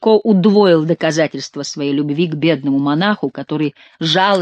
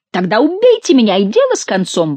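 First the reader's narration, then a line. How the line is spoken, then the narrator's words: Exclaiming. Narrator (Russian): воскликнул Горанфло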